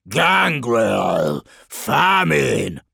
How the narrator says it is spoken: Kugath bellowed

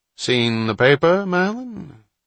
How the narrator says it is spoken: Bill Banns interrupted Hatch's thoughts with his characteristic lazy drawl

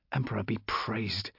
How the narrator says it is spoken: I breathed, my head still reeling with incomprehension, but grateful for this apparent miracle

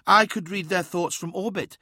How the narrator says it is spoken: said Uthizar, fighting to keep his tone even

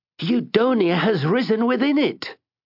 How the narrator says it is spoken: cried Mr

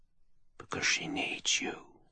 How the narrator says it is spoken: the jewel whispered

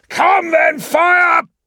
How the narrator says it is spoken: shouted, unrepentant

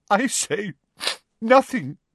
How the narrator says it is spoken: she choked

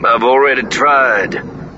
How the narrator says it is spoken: Lando sighed

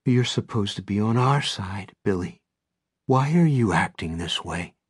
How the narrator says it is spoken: in a softer voice, a hurt voice maybe, she says

